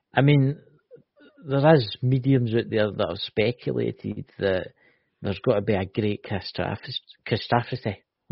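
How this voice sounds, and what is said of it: Scottish accent. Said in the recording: “It's a Scottish accent”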